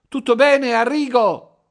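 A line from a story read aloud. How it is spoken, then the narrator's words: Wife shouting. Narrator (Italian): gridò la moglie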